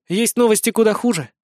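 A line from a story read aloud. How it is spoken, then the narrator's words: Grim declaration. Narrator (Russian): мрачно заявила Торви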